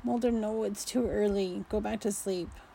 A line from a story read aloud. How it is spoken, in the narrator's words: groaned